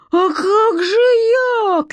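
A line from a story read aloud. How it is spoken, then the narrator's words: Shouting. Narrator (Russian): кричал Митька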